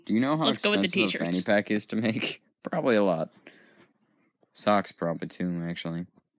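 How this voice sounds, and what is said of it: Sick, unusually deep voice. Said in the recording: “I'm sort of sick, so that's why my voice is... Even deeper than normal.”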